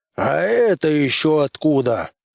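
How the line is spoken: Roaring. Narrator (Russian): проревел он

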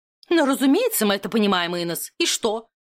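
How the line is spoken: Irritated question. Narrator (Russian): раздраженно вопросила свекровь

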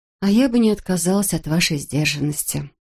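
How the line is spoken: Sad confession. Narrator (Russian): грустно призналась

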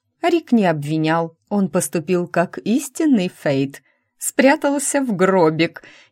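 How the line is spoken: Giggling. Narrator (Russian): хихикнула Лора

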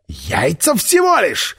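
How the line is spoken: Shouted after someone. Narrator (Russian): выкрикнул Миха мне вслед

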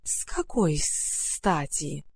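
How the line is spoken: Hissing grass. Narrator (Russian): прошипела трава

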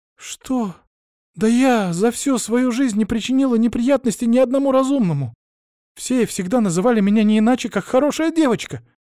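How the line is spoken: Shouted reply. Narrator (Russian): закричала в ответ Мария

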